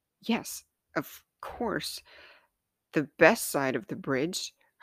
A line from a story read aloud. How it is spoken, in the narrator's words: chuckled nervously, on the verge of tears